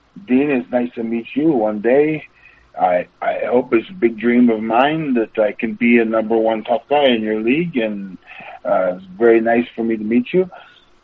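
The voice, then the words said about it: Put-on French accent. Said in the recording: “sorry about my French accent or whatever ... that's pretty good, actually.”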